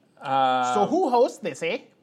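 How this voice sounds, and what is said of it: Put-on Canadian accent. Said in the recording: “In the Canadian accent, eh?”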